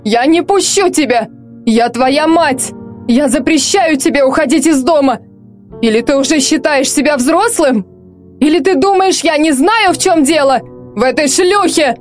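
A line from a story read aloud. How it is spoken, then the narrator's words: Yelling at top of voice. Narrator (Russian): Артем орал благим матом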